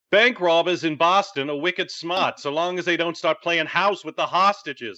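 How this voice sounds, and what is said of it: Put-on Boston accent. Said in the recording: “I promise that's the only time I'm going to try the accent.”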